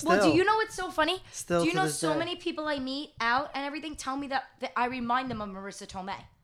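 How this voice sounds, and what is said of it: Speaks with a noticeable accent. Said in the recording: “the voice ... They say my accent”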